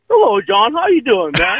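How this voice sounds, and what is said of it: Poor impression of OJ Simpson. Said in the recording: “Are you doing the OJ impression to me? ... your impression of OJ ... it's just terrible”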